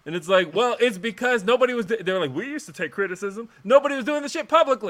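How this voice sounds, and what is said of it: Usual voice. Nothing is said of it.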